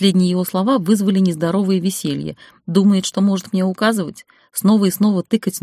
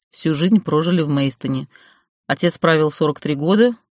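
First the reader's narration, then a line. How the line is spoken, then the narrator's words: Snort. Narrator (Russian): хмыкнул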